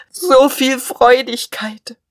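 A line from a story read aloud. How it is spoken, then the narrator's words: Sobbing. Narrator (German): schluchzte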